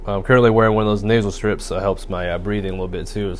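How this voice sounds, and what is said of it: Raspy, congested voice. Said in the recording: “my nose started to stuff up ... My throat's a little raspy.”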